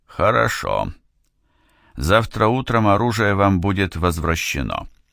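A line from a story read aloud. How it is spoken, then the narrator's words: Calm voice. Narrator (Russian): сказал Фейн все тем же спокойным голосом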